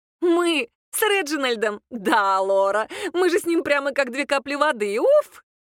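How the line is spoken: Remark after laughing. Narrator (Russian): та, отсмеявшись, все-таки заметила

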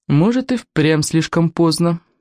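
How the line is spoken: Gloomy admission. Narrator (Russian): мрачно признала Волгаларама

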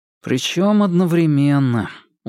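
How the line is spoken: Glum confirmation. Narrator (Russian): уныло подтвердил Иван

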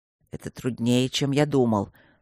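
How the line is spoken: Through gritted teeth. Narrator (Russian): сквозь зубы проговорил Свидерский

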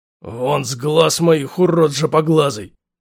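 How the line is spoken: Hoarse wheeze. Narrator (Russian): просипел Плахин

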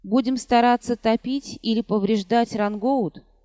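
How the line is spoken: Plain question. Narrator (Russian): спросил помощник

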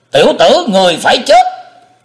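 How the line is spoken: Big man roaring. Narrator (Vietnamese): tên đại hán gầm lên

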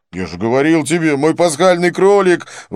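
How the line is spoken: Exclamation. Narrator (Russian): воскликнул Винсент

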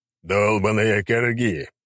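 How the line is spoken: Growling thunderer. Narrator (Russian): прорычал громобой

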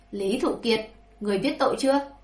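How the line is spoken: Sudden loud grim shout. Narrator (Vietnamese): vẻ mặt hoàng đế càng ngày càng âm trầm, bỗng nhiên vỗ bàn lớn tiếng quát

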